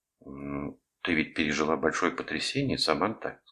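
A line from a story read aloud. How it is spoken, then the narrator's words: Plain. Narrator (Russian): сказала Деб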